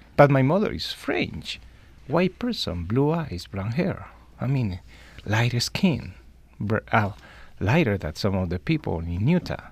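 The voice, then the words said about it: Noticeable non-native English accent. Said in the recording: “my accent, as your audience can detect it”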